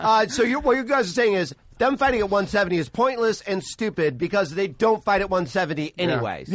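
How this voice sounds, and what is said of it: Usual voice. Nothing is said of it.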